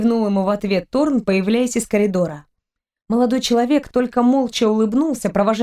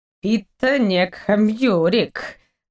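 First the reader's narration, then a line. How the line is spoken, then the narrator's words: Drawn-out drawl. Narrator (Russian): протянул доктор, растягивая слова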